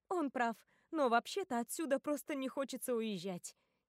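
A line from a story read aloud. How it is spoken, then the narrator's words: Cheerful. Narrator (Russian): весело говорю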